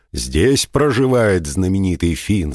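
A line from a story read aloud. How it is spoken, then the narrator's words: Booming question. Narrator (Russian): спросил Кухулин громовым голосом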